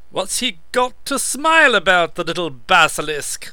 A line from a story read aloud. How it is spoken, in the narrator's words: the monster had snorted